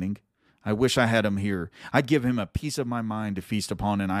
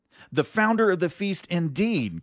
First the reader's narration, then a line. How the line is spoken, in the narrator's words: cried Mrs